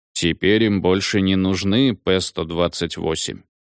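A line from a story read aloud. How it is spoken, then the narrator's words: Gloomy. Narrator (Russian): мрачно сказал БАД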